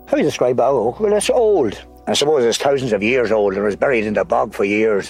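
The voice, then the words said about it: Irish Cavan accent. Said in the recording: “Captain Kelly's Cavan accent”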